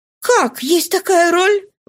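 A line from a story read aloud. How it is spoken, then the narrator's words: Astonished exclamation. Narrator (Russian): воскликнула она с изумлением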